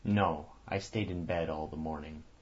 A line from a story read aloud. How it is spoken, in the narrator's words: answered the other